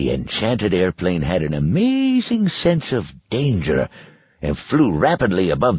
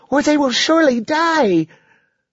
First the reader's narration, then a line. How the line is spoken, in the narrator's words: cried Lacey